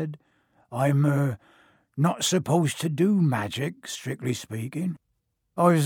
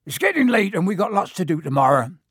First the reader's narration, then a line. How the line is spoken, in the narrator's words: said Hagrid loudly